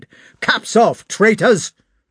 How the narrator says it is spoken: shouted Rostov in a wrathful voice

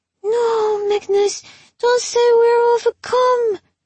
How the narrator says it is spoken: moaned the nasty girl, sotto voce

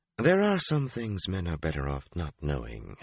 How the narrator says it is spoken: Shiriam replied coolly

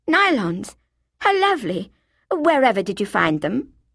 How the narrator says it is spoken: Daffy gasped

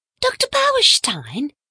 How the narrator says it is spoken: exclaimed Cynthia

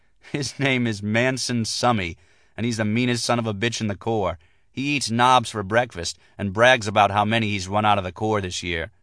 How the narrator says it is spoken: Jordan said, giggling

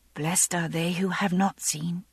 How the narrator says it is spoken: I whispered under my breath

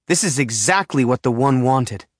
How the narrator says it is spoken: Dad says angrily, realizing the implications

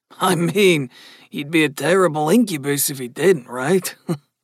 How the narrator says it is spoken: Gus asked with a soft laugh

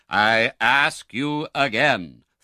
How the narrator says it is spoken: thundered the doctor

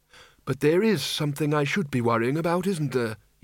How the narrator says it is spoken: he said flatly

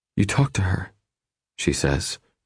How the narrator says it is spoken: her voice breathy and quiet

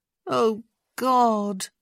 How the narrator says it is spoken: Francesca groaned

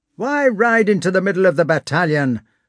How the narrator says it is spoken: one of them shouted at him

